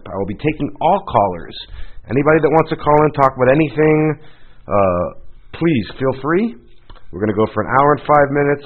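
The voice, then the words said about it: Slightly hoarse voice. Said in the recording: “tell from my voice being a little hoarse. ... I have a really lingering cold”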